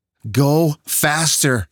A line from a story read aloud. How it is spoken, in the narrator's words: Mandy screamed